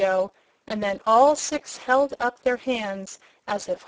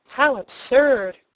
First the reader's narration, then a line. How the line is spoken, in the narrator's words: cried Cobalt